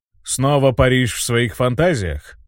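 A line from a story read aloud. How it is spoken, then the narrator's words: King's grumble. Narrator (Russian): буркнул король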